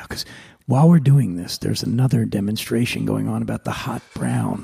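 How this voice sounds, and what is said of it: Whispering. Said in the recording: “I'm whispering now”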